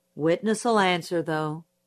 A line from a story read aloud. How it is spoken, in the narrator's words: said Judge Taylor, just as wearily